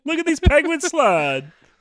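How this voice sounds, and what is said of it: Imitates another person's voice. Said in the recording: “give me your best Morgan Freeman impression ... He always says ho-ho like that. There, that is Morgan Freeman.”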